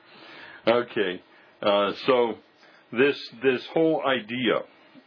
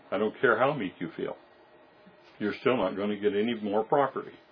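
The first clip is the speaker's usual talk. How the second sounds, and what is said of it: Sarcastic tone. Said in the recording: “That was sarcasm.”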